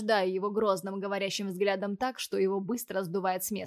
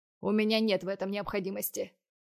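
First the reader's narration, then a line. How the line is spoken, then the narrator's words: Cold reply. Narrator (Russian): холодно отвечаю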